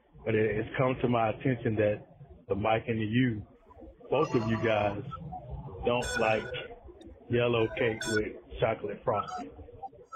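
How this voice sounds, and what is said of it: Somber, subdued voice. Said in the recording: “I'm in my somber voice because I don't have the normal excitement that I usually would have”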